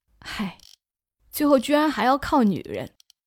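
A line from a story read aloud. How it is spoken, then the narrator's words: Sighing. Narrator (Chinese): 老姜叹气说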